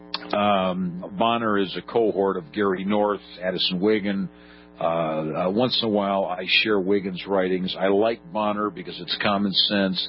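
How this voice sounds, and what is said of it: Hoarse, cracking voice. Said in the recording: “I'm losing my voice tonight ... It's starting to crack as if I were a 13-and-a-half-year-old teenager with hormonal problems”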